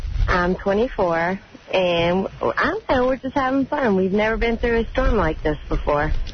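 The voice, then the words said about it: Virginia Southern twang. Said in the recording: “You have that Virginia Southern twang... it's sexy. It's got like the Southern Belle thing going.”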